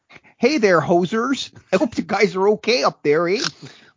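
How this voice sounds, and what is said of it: Put-on Canadian accent. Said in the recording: “my Canadian drawl”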